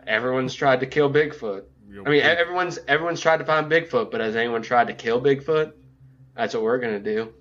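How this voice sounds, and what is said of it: Vaguely southern Matthew McConaughey impression. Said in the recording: “a vaguely southern accent ... With your Matthew McConaughey? ... It was spot on, by the way. ... It was not.”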